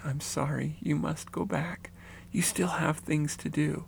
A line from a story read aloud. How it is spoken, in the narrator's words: She smiled and gently said